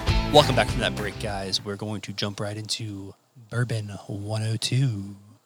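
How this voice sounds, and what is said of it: Smooth radio-announcer voice. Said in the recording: “NPR voice... I was going for Parks and Recreation, the Smooth Jazz channel.”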